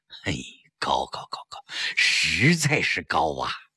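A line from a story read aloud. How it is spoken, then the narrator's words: Admiring. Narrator (Chinese): 宋杰明叹服道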